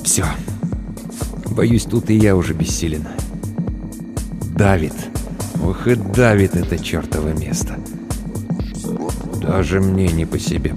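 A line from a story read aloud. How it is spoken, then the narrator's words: Mutter. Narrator (Russian): пробормотал Тахашвили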